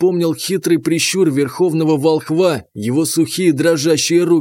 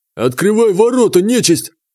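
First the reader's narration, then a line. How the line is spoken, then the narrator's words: Barking from outside. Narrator (Russian): рявкнул с улицы Войсвет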